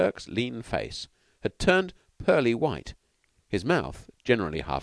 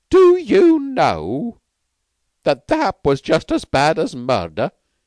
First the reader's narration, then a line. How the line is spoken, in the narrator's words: he said in a grating voice